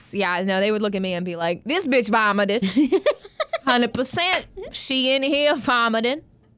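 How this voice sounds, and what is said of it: Put-on accent. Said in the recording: “That's not how they talk, though. I don't know where that came from. ... Those are your accents.”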